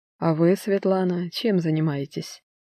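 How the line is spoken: Calm question. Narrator (Russian): Его вопрос, заданный спокойно

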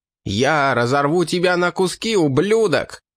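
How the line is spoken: Scream. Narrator (Russian): завопил Эрош

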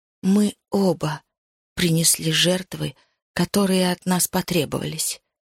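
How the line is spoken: Quiet voice. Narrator (Russian): тихо произнесла она

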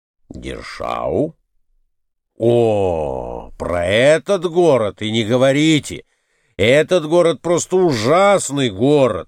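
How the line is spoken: Exclaiming. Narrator (Russian): воскликнул в свою очередь Николай Иванович

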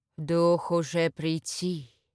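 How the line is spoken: Sepulchral voice. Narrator (Russian): Загробным голосом произнесла Амалия

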